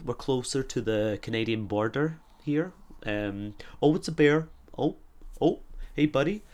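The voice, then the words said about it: Subtle Midwestern American accent. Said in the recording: “my American accent isn't like most, it's more kind of Midwestern. It's more a little bit like this, so it's a bit more subtle ... Wisconsin, kind of Minnesota area ... It's a bit more subtle, it's a bit more down here.”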